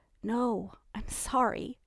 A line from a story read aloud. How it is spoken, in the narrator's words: admitted Ellie, her voice subdued